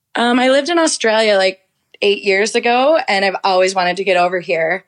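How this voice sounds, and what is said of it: American Minnesota accent. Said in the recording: “I'm sure by now listeners have picked up on your accent ... I'm from Minnesota in the States”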